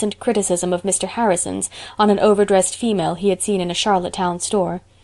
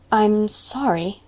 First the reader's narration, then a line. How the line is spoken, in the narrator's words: faltered Anne